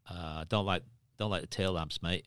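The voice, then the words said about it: Aussie accent with American tinge. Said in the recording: “that's sort of an Aussie accent. ... he's a bit American.”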